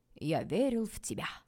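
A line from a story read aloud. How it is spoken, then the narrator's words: Amused grunt. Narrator (Russian): хмыкнул Стас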